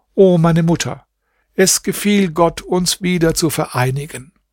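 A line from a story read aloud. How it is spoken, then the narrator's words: Call out. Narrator (German): rief Hasan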